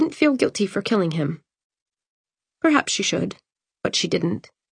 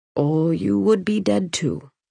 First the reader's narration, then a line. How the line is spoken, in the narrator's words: Emery had said, his tone dark